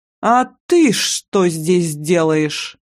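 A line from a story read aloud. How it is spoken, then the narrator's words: Through gritted teeth. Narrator (Russian): Процедила это Мегера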